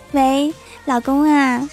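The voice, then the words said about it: Gentle, soft quiet voice. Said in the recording (Chinese): “温柔的小声”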